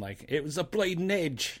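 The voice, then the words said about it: Mock British accent. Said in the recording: “you said it with a British accent”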